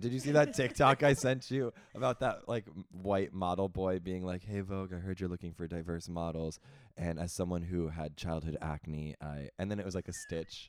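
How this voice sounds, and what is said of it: Raspy, husky, congested voice. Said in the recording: “I'm sporting a raspy, husky little voice. ... what are you congested? ... More than congested. I'm getting over an allergy cold.”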